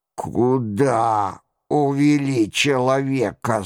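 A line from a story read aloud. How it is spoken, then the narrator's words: Hoarse rasp. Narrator (Russian): захрипел он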